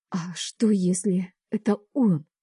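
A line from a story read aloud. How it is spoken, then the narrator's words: Trembling question. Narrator (Russian): Дрожащим голосом спрашиваю я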